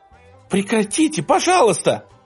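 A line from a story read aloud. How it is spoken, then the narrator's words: Shouting and crying. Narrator (Russian): Диана кричала и плакала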